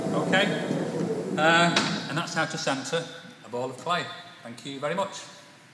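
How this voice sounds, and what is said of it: British accent. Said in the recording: “He's British. That's awesome. His accent rocks.”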